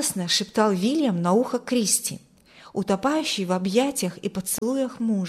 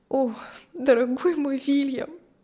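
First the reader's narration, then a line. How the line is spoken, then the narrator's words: Tearful. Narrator (Russian): Сквозь слезы говорила Кристи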